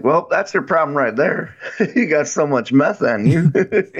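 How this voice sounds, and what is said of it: Put-on Southern accent. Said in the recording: “that southern accent you just did”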